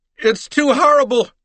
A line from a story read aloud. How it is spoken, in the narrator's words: she cried